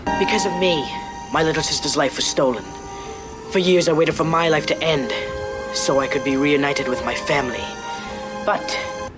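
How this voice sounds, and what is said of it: Dramatic, bad British colonial accent. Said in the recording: “this cat dr- talks with this dramatic accent ... It's a Salem accent ... it's a bad British accent ... It's like, colonial accent”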